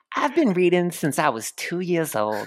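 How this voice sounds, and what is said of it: Subtle, calm imitation of another's voice. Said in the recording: “do your best Cat Williams impression? ... I'll do a Cat Williams. ... That was so subtle. ... his kind of calm demeanor”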